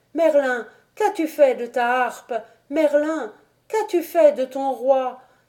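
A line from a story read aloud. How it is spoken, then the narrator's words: Trembling, distraught cry. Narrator (French): Merlin, frissonnant, éperdu, s'écria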